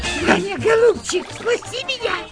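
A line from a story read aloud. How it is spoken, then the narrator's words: Squeaky trembling woman's voice. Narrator (Russian): пропищала дрожащая майорша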